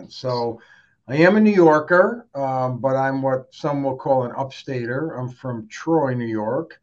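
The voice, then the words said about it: Unusual New York accent. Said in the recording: “You have a very New York accent ... it's not the New York that we know, that we're thinking about.”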